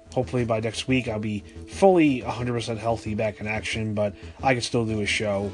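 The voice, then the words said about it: Raspy, hoarse voice from sore throat. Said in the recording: “You can still hear a little bit there ... entertain you guys with my raspy throat”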